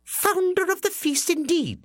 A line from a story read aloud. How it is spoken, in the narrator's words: cried Mrs